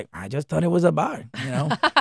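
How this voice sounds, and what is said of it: Imitates another person's voice. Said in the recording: “I love your Cheech impression.”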